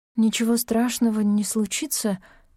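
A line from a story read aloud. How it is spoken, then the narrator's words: Uncertain voice. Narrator (Russian): сказала она неуверенным голосом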